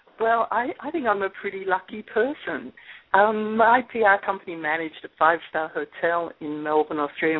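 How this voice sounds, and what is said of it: Australian accent. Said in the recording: “as you'll be able to tell in just a moment from her accent, she came to Indianapolis from Melbourne, Australia”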